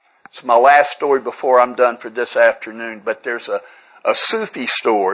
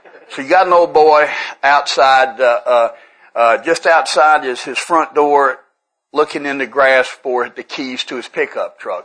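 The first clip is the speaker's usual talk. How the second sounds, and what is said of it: Put-on Tennessee redneck accent. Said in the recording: “I've changed it to Tennessee redneck”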